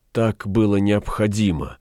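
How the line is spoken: Unhappy sigh. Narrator (Russian): вздохнула несчастная

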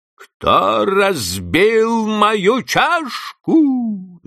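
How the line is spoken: Fierce shout. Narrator (Russian): закричал он свирепым голосом

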